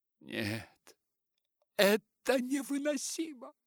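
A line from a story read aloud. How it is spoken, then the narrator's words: Exclaimed. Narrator (Russian): воскликнула Дейзи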